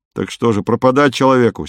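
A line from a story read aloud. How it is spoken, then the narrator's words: Angry reply. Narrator (Russian): сердито отозвался Юра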